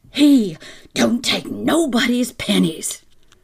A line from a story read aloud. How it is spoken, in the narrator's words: the woman shout